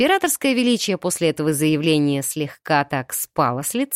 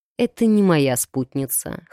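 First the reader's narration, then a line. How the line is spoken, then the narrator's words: Snorting. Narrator (Russian): хмыкнул фон Грейслинг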